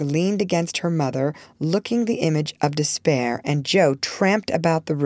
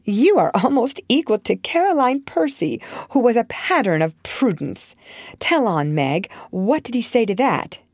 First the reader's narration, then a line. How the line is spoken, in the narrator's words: Joe clapped her hands, exclaiming with a laugh